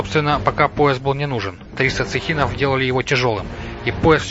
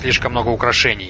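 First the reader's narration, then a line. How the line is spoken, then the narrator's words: Mutter. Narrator (Russian): пробормотал он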